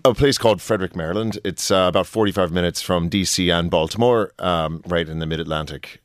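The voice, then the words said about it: American accent. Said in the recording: “the accent you mentioned there, you're from the States”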